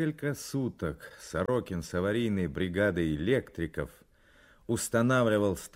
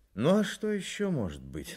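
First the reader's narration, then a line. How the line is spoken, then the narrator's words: Sighing. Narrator (Russian): вздохнул Сорокин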